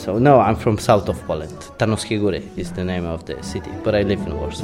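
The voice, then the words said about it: Polish accent. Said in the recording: “a very Polish accent”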